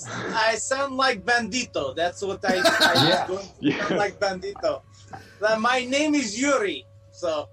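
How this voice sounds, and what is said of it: Put-on Russian accent. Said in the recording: “I will talk like this for the rest of the thing. I just do Russian accent ... you sound good”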